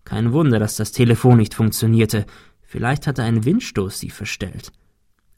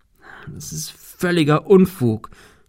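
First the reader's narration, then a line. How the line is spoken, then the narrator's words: Stammering. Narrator (German): stammelte er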